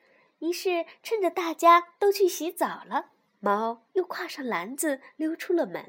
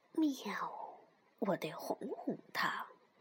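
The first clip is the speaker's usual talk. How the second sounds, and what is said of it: Quiet muttering cat voice. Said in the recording (Chinese): “猫小声嘀咕着”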